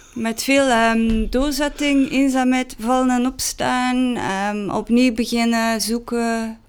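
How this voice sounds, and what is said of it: Strong Ghent accent, especially the R. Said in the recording (Dutch): “Ik ben dus van Gent, niet van Amsterdam. En ik heb dus een ontzettend Gents accent. Zeker de R.”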